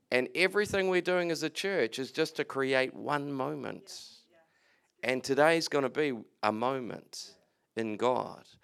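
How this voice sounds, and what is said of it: Noticeable foreign accent, harder to understand. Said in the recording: “accents is hard. I apologize for my accent if it's hard to understand.”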